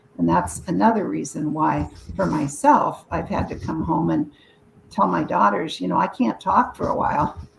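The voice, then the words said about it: Voice worn and giving out. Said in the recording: “I'm already losing my voice today.”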